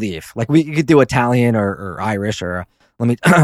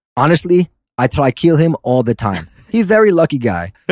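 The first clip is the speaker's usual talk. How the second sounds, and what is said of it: Weak attempt at Russian accent. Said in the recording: “your best Russian accent ... That's the best I can. I'm terrible at accents.”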